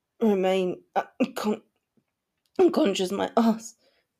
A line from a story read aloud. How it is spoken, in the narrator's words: he stuttered